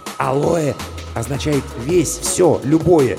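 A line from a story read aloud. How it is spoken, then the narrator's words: Whispered explanation. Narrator (Russian): шепотом пояснил Мигулис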